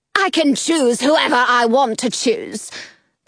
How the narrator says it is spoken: the queen snarls

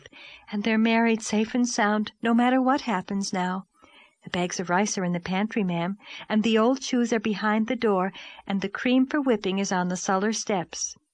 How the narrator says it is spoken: breathed Charlotta the Fourth

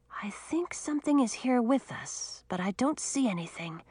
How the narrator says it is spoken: she told Audun in a whisper

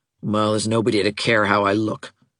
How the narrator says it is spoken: said Nora bitterly

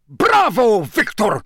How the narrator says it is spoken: boomed Karkaroff so loudly that everyone could hear him, even over all the applause

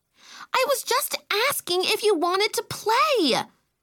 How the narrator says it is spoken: Camille shrieked

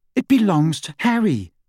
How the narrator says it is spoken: said Hermione hotly

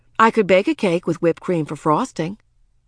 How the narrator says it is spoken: Quimby, sensing trouble, quickly said

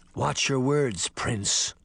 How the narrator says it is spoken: Canis growled

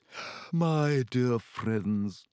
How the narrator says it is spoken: said mournfully

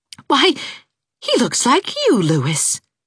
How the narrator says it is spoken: exclaimed Anne

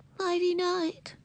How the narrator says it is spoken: said Ramona in a muffled voice

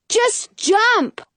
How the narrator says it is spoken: Jonah yells

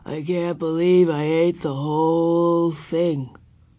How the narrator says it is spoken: He groaned

